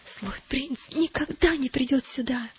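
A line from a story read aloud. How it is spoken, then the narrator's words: Whisper. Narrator (Russian): прошептал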